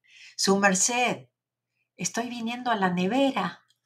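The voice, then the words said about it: Put-on Bogotá Colombian accent. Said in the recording (Spanish): “te lo voy a, contestar en bogotano”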